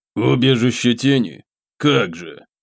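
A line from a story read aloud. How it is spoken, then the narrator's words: Snorted through teeth. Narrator (Russian): фыркнул сквозь зубы Кхимару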